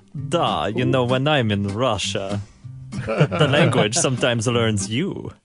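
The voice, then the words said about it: Put-on Russian accent. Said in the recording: “I love doing accents ... I wish I could speak Russian to go with the accent.”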